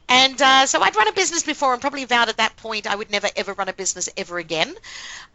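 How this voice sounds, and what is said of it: Mixed Australian, English and American accent. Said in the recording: “I have a rather mixed accent, which is a combination of Australia and England and America”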